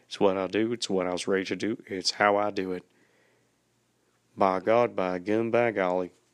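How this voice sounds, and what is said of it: Put-on folksy accent. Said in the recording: “you might hear my accent just really digging on in there... you're gonna hear me just really digging on in that there accent”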